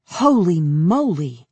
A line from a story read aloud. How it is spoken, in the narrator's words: Cammy exclaims